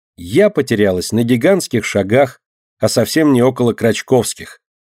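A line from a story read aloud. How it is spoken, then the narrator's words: Calm. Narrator (Russian): спокойно говорит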